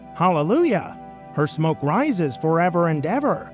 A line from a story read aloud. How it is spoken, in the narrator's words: a second time they called out